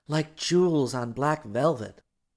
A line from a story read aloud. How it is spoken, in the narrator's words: Dorothy breathed